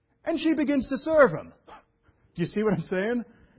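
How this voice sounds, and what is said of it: New York accent. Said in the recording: “That's my New York thing coming back.”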